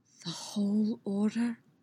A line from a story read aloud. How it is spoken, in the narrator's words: whispered